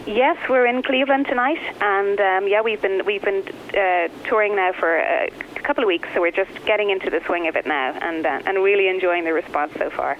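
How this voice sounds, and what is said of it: Irish accent. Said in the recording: “beautiful Irish singers ... I just love your voice ... I love your accent. Is that your real accent? ... this is the real us”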